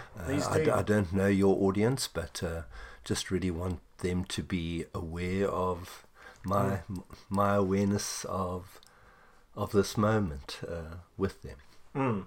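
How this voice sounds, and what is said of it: South African accent. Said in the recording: “those who understand accents may pick up where you're from ... I'm born and bred South African”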